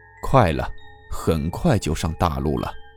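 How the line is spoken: Low, subdued voice. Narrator (Chinese): 售票员的声音有些低沉的说了一句

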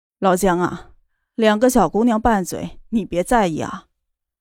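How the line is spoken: Smiling, conciliatory. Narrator (Chinese): 一直沉默的南国君笑着道

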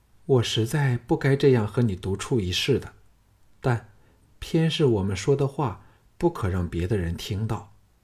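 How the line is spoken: Long sigh, composed again. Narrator (Chinese): 凤飞才稍复常态，悠悠叹了一口气，说

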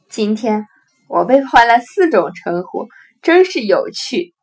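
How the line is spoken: Hearty laughing. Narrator (Chinese): 轮岛先生哈哈大笑道

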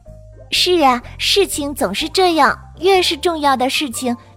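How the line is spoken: Sighing. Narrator (Chinese): 克洛艾叹了口气，说道

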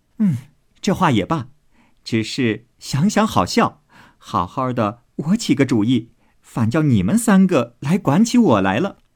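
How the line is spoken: Laughing. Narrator (Chinese): 因笑道

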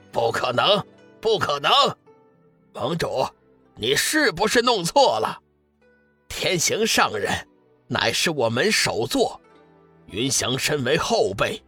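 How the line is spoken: Flustered shout. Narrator (Chinese): 天机子有点不知所措，吼道

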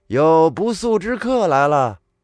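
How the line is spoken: Calling out. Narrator (Chinese): 耿去病主动喊了一句

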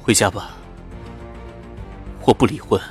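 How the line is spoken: Very soft voice. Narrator (Chinese): 顾军的声音很轻

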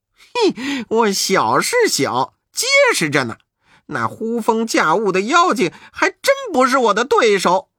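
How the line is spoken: Laughing. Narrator (Chinese): 悟空笑道

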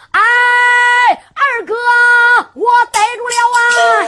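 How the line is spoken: Shouting. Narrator (Chinese): 喊啦

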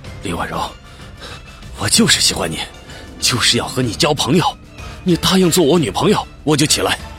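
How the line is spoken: Heavy panting speech. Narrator (Chinese): 上官明亮喘着粗气说

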